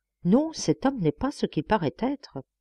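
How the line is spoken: Murmuring rooster. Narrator (French): murmura le coq

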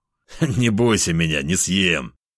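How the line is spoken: Laughing. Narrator (Russian): Рассмеялся я

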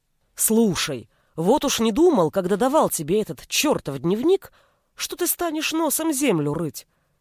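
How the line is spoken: Exclaimed in amazement. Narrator (Russian): изумленно воскликнул Олег

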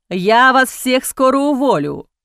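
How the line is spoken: Loud, heedless. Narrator (Russian): Громко, не обращая внимания на то, что вокруг много посетителей, говорил Раим Сикор

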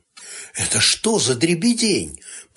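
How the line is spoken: Whisper. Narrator (Russian): прошептала невзгода

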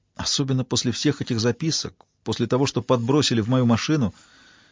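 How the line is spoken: Quiet speech. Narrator (Russian): тихо проговорила Джозефина

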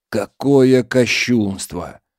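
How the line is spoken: Shocked mutter. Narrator (Russian): Ильяс потрясенно пробормотал

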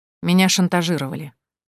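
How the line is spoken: Gloomy. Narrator (Russian): мрачно произнес Толик

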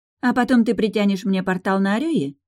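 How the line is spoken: Snide question. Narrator (Russian): ехидно спросила Кира

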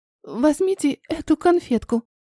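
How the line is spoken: Strained, barely audible. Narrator (Russian): выдавила еле-еле, преодолевая сопротивление густого воздуха

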